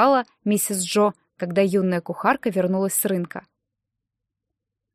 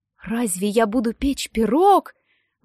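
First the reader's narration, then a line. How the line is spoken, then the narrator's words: Exclaiming in disbelieving joy. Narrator (Russian): воскликнула Дейзи, не веря, что ее ожидает такое счастье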